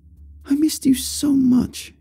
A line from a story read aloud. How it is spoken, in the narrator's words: she exclaimed, not completely unlike the way she would talk to a baby